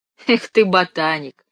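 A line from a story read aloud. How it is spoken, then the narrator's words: Laughing. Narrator (Russian): рассмеялся Димка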